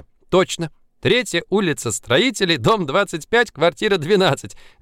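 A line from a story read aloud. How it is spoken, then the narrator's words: Laughing. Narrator (Russian): засмеялась Женечка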